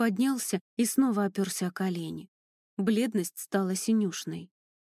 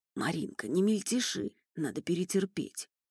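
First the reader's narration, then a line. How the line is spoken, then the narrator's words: Hoarse rasp. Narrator (Russian): прохрипел Андрей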